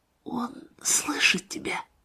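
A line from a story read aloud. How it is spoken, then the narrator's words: Whisper. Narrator (Russian): Она прошептала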